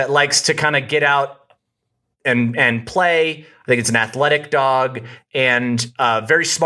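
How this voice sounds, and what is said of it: Usual voice. Nothing is said of it.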